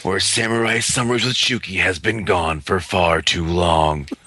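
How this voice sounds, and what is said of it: Epic movie trailer narrator voice. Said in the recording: “epic trailer voice ... My trailer voice isn't as epic as yours ... such an epic voice”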